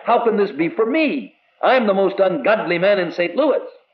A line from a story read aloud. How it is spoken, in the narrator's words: he cried